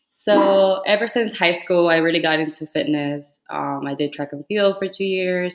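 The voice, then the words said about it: Slight Cuban Spanish accent. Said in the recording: “I'm Cuban. I was born in Cuba ... I have like a little accent. ... It's not my first language.”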